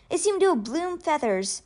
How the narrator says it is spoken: he gasped

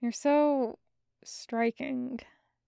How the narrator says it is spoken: Julian mumbled

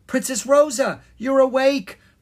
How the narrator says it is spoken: Miranda cried

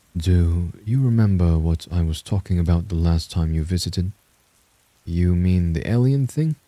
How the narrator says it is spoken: answered, trying to make my voice sound light

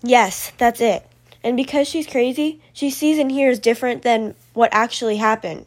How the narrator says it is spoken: said Mr

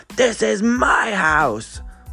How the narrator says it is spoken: A former total diva, a woman who, wherever she turns up to throw down, screams

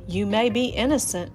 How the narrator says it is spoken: replied the farmer

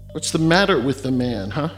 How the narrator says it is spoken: sneered Dibia Agu

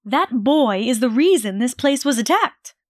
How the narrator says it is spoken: she shouted

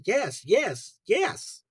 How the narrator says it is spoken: she yelled excitedly

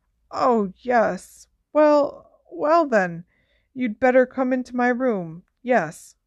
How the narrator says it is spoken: she said feebly

